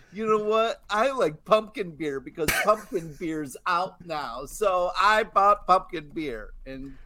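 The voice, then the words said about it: Impression of a co-host. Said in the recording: “that's a wonderful impersonation of me ... Sounded like me.”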